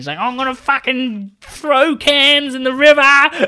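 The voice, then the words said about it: Australian Bogan accent. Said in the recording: “a Bogan accent”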